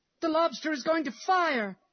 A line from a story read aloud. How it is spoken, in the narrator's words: cried a boy